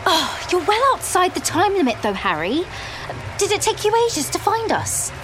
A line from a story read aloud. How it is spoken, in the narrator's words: Hermione impatiently said